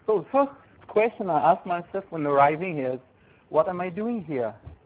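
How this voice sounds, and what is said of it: French-accented English. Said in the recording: “I'm coming from France and speaking very, very nice accent, français”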